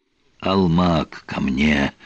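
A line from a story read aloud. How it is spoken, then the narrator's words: Hoarse wheeze. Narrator (Russian): прохрипел он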